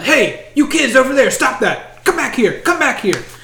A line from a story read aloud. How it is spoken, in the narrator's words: a couple of guards shouting